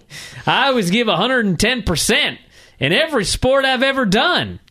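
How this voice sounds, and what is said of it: Barry Windham impression with twang. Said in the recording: “You suddenly developed a twang. ... Doing my Barry Windham impersonation.”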